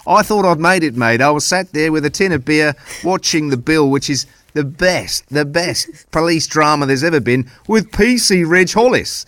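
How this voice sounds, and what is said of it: Put-on regional British accent. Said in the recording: “apologies for the accent”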